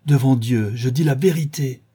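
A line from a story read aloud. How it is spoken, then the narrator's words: Exclamation. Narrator (French): s'écria-t-elle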